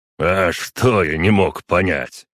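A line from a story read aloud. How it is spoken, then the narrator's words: Snorted. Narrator (Russian): хмыкнул Креслав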